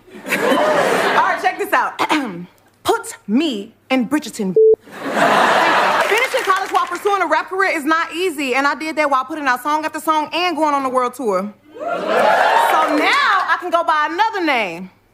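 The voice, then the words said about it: Put-on British accent. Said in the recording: “I think I do a pretty good British accent.”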